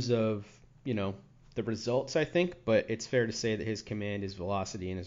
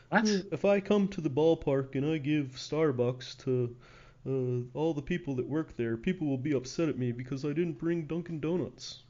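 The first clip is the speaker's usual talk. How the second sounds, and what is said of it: David Price impression. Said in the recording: “great David Price impression.”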